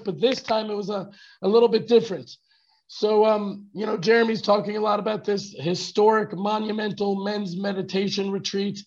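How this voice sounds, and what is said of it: Hoarse, lost voice. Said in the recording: “Tell me, are you understanding me? ... So how did I lose my voice this time?”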